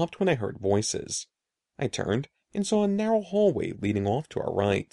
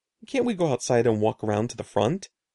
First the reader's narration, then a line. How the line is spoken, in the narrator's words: asked wearily